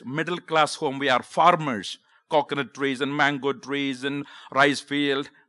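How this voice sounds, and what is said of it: South Indian accent. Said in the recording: “I grew up in South India, the state called Kerala ... I have a southern accent”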